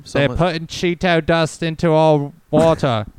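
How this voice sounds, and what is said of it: Put-on New Zealand accent. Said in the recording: “New Zealand conspiracy theorist accent”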